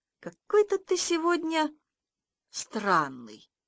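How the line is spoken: Teacher speaking calmly. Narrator (Russian): учитель спокойно так говорит

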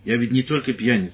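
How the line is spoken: Stern. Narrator (Russian): сказал он строго

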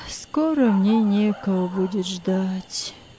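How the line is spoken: Elderly woman answering. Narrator (Russian): ответила бабушка Катерина

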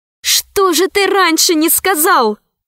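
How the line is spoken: Exclaiming. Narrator (Russian): воскликнула Алиса

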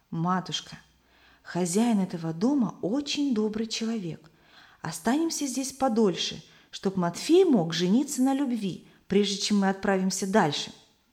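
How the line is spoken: Whispered in ear. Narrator (Russian): Самуил шепнул на ухо матери

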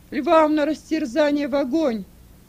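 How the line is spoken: Many voices shouting. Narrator (Russian): Все закричали

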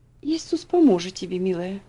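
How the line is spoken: Tender reply. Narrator (Russian): нежно ответила тетушка Хлоя

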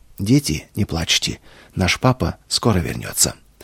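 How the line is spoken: Sudden calm voice. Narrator (Russian): она вдруг спокойным голосом сказала

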